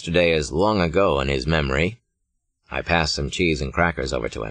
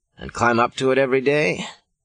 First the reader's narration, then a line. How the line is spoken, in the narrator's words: I groan